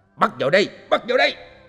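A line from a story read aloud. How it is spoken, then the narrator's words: Shout. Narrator (Vietnamese): nghe tiếng quát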